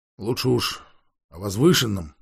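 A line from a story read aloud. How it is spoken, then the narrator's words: Grumbling. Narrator (Russian): проворчал мастер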